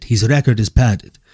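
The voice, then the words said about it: Mock Russian accent. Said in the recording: “I love that you typed it in a Russian accent.”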